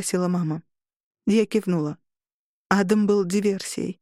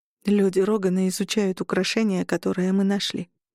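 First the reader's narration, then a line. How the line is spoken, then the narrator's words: Muffled, hollow voice. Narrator (Russian): сказала глухо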